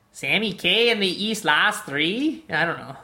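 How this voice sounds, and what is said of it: Exaggerated Minnesotan accent. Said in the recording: “I should say it in the most Minnesotan accent I can ... That is super Minneapolis”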